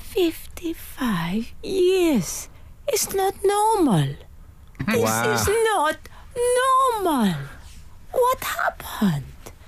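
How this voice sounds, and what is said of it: Put-on Italian accent. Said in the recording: “Am I allowed to do an Italian accent?”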